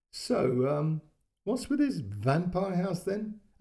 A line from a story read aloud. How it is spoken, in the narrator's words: she laughed